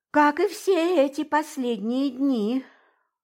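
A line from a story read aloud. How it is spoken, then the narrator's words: Capricious sigh. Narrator (Russian): вздохнул Тарновский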